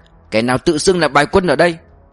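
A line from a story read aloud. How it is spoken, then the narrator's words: Shout. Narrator (Vietnamese): Mã Vinh quát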